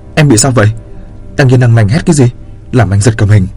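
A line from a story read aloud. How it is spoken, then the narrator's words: Loud snapping. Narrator (Vietnamese): gắt ầm lên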